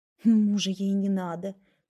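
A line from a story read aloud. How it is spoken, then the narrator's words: Woman grumbling after someone. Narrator (Russian): проворчала вдогонку женщина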